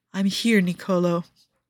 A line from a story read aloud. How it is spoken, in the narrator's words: Joe calls out softly in Ligurian